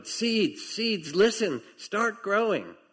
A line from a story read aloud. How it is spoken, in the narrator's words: Toad put his head very close to the ground and shouted